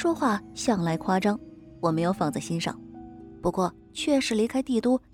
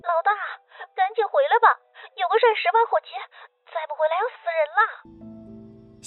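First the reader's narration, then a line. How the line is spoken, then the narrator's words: Frantic wailing over phone. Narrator (Chinese): 接起电话，那边就传来鬼哭狼嚎的声音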